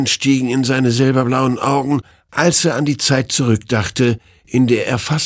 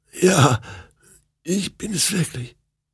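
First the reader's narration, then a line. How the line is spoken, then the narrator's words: Hoarse croak. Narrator (German): krächzte sie heiser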